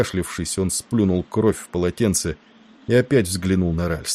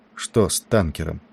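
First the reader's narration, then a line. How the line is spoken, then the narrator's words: Sudden quiet question. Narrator (Russian): вдруг негромко спросил Ральстон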